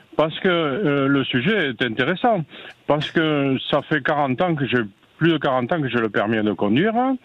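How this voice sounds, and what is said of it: Noticeable regional French accent. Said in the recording (French): “Joli accent”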